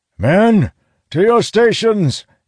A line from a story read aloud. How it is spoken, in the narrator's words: he shouts